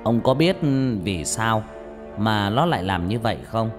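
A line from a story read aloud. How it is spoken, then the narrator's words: Bursting into laughter. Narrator (Vietnamese): Tên thầy Tà cười phá lên, rồi nói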